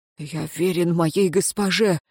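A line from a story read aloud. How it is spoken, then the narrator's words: Slightly hoarse voice. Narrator (Russian): с легкой хрипотцой произнес узник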